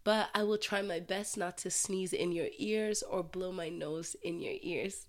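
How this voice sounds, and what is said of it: Sick, congested voice. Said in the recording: “as you can probably hear in my voice, your girl is sick ... I have a flu. Everything is congested.”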